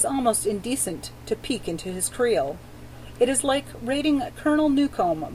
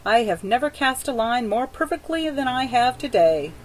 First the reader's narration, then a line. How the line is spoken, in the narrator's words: says happily